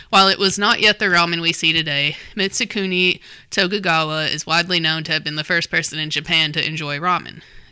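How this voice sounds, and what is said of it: Rural Southern American accent. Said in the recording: “Sorry if you're going to hear them in my accent. They're going to sound rednecky.”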